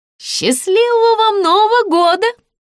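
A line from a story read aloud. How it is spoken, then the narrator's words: Shouted after someone. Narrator (Russian): крикнула ему вдогонку кассирша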